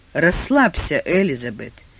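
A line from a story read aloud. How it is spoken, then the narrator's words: Laughing, soothing. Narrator (Russian): смеясь стала успокаивать ее Лайла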